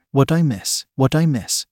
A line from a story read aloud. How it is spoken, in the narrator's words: Alex asked as she rushed back in